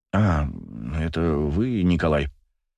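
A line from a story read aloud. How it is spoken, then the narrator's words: Absent-minded mutter. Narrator (Russian): Рассеянно пробормотал целитель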